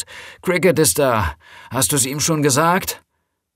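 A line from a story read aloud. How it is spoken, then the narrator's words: Calling into the house. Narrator (German): rief sie ins Haus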